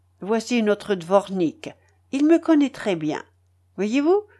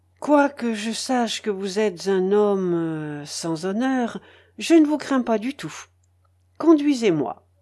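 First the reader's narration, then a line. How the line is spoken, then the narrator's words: Forced calm. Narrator (French): dit-elle d'un ton calme que démentait, il est vrai, l'extrême pâleur de son visage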